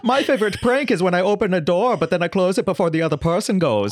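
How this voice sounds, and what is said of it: Mock German accent. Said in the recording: “There were a couple of accents that you and I have had a really good time making fun of... Our friend Tom, the German.”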